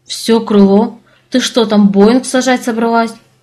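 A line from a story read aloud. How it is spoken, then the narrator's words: Exclaiming. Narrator (Russian): воскликнула я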